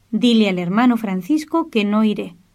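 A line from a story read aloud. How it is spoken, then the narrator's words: Plain. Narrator (Spanish): respondió Rufino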